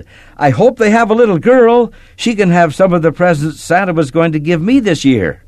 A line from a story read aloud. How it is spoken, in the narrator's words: she shouted